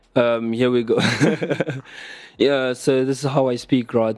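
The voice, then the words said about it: Put-on British accent. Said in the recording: “my British accent impersonation”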